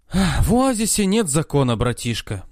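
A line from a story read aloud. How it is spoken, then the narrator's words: Sighing. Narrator (Russian): вздохнул Дайто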